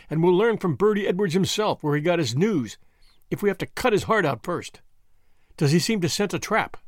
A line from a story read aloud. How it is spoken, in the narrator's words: McMurdo laughed